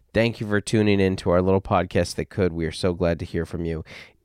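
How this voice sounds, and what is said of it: Froggy, husky, slightly hoarse voice. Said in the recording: “If I sound a little froggy, I am. I lost my voice this last weekend ... I talked too much ... maybe a little on the sultry side ... It's a rich, full”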